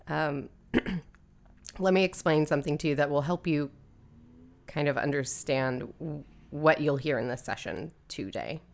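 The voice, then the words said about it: Slightly hoarse, croaky voice. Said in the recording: “I've got a little frog in my throat”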